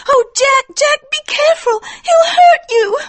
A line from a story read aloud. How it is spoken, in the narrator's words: cried Etty